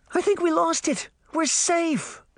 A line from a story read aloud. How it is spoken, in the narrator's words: cried